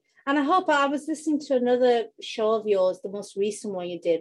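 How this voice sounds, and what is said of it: British accent. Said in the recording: “you can tell from my accent, I'm in the UK”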